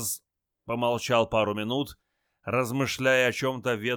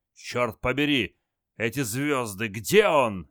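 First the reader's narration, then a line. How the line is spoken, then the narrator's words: Barking. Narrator (Russian): рявкнул генерал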